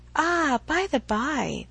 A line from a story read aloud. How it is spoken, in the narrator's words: with a sudden accession of gay thought, she cried